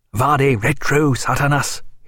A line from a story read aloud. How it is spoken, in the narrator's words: he cried